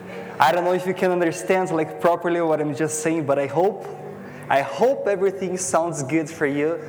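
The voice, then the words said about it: Strong foreign accent. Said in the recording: “my strong accent”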